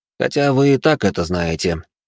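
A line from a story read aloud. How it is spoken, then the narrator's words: Young man, heavy sigh. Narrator (Russian): добавил молодой человек и тяжело вздохнул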